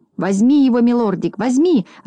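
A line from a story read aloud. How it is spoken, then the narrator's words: Joyful squealing. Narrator (Russian): радостно визжал Клопс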